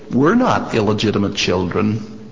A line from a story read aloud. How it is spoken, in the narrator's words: some of the people said sarcastically